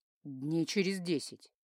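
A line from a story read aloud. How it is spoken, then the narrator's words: Calm. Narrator (Russian): спокойно сообщил Киару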